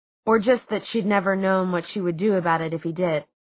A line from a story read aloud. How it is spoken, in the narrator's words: She sighed